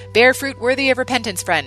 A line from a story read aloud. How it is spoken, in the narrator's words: shouted